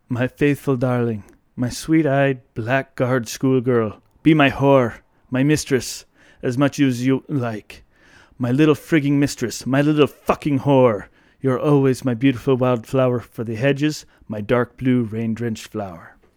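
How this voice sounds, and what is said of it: Poor put-on Irish accent. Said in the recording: “Your Irish accent. ... painful. ... Painful.”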